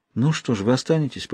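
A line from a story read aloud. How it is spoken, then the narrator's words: Whisper. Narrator (Russian): прошептала она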